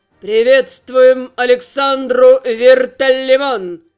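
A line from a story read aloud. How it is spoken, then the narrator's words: Emperor's voice booming, echoing. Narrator (Russian): прогремел под сводами голос императора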